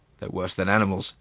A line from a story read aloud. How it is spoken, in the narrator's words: replied Monsieur Sauvage